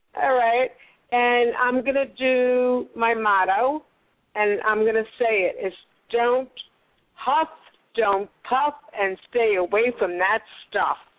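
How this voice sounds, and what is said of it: New York accent. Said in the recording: “do I have to say where I'm from with my accent? ... I think you're from the East Coast. ... Oh, you got that right, from New York.”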